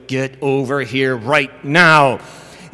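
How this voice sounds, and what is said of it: Stern authoritative commanding voice. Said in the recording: “put on my best authoritative voice”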